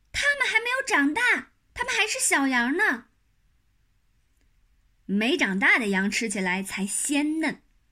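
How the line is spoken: Shouting. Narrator (Chinese): 马小跳叫起来

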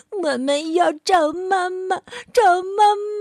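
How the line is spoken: Whimpering, crying. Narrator (Chinese): 小老鼠兄弟们哭哭咧咧地说

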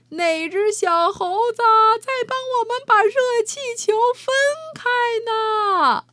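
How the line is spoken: Shouting from below. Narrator (Chinese): 有人在下边喊起来

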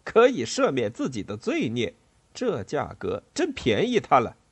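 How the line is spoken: Mocking laughter. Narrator (Chinese): 人群中某个人哈哈大笑

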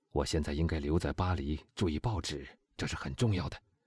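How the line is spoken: Low voice. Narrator (Chinese): 他又低声说

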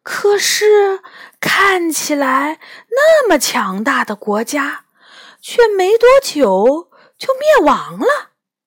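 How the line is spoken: Sighing. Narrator (Chinese): 他叹了一口气，接着说

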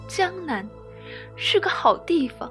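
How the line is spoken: Gentle, smiling. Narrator (Chinese): 他笑得那么温柔，说

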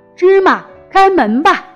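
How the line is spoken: Loud. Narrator (Chinese): 阿里巴巴大声说道

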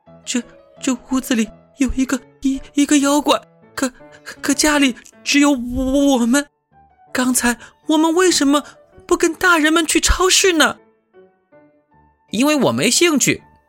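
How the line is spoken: Stuttering. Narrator (Chinese): 小白兔结结巴巴地说

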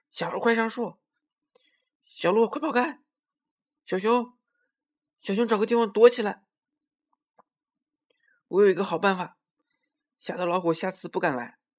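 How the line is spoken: Loud shouting. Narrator (Chinese): 他大声喊起来

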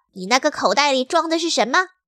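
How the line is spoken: Sharp, stern. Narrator (Chinese): 史莱克厉声说

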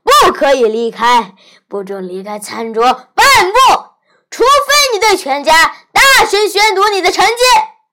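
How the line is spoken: Loud roar. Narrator (Chinese): 他大吼

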